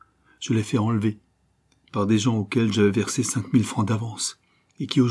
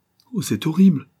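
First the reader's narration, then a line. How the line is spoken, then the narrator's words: Sobbing exclamation. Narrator (French): s'exclama Gisèle en un sanglot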